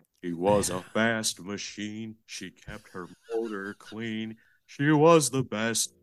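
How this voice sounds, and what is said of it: Imitates another person's voice, singing. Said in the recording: “That's a great Iggy Pop impression.”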